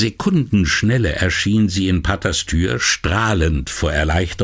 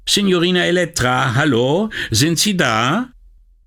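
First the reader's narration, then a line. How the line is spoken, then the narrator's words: Calling out. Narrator (German): rief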